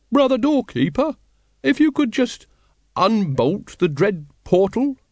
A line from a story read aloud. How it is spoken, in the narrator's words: he quavered